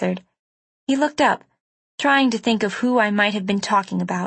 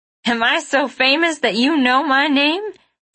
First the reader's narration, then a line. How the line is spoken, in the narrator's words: he asked, cackling